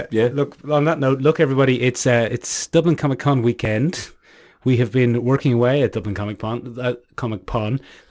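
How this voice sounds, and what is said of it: Hoarse, fading voice. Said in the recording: “That's why I'm somewhat losing my voice.”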